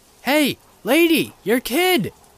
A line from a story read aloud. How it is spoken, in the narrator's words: I screamed